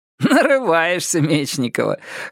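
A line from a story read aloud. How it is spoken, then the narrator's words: Short laugh. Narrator (Russian): хохотнул Родион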